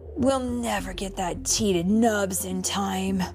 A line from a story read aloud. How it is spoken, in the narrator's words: Kai said with a sigh